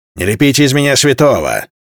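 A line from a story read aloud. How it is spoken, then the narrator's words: Snapping retort. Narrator (Russian): огрызнулся Алва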